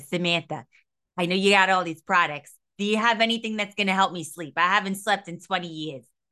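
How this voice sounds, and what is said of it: Impression with thick New York accent. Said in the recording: “She has a real thick New York accent ... my impressions of her”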